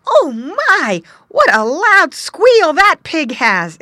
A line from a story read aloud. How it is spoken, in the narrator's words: exclaimed Squinty